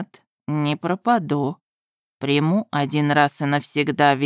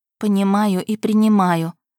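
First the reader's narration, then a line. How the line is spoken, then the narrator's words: Sad sigh. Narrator (Russian): грустно вздохнула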